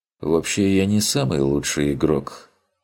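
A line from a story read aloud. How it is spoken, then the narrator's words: Heavy sigh. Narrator (Russian): тяжело вздохнул тот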